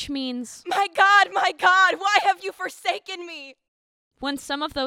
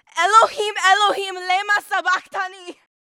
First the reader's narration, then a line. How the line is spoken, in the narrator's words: Jesus cried out in a loud voice